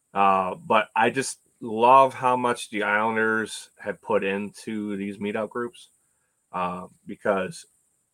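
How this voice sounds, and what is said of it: Voice sounds off from a cold. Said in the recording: “my voice sounds funny, I got a cold, which I'm just getting over that.”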